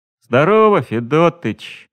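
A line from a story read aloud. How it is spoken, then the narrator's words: Glum greeting. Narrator (Russian): не очень-то весело поприветствовал его наш возница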